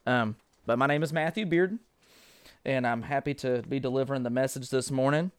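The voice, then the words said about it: Southern US country twang. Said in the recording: “the country twang”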